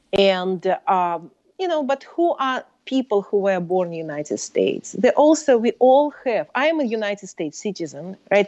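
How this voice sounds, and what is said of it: Speaks English with a foreign accent. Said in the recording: “I speak with accent”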